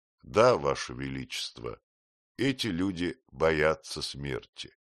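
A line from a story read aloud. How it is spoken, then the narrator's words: Glum reply. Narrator (Russian): также уныло ответил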